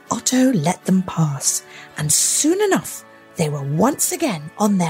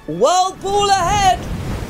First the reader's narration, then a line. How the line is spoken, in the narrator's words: Osgood shouted from the sky